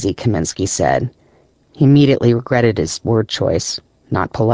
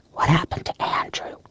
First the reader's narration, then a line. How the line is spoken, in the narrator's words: Kaminsky whispered